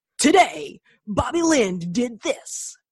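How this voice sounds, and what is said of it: Dramatic announcer voice. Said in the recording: “that amazing announcer voice”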